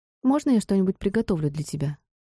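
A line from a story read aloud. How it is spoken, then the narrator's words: Plain question. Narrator (Russian): спросила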